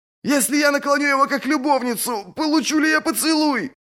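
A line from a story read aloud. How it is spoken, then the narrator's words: Shouted. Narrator (Russian): крикнул Одда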